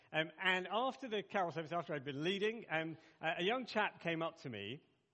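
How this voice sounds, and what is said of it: Very English accent. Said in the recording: “I have, I'm told, a very English accent.”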